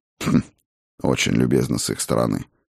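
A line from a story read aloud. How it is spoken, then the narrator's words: Wry snort. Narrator (Russian): хмыкнул я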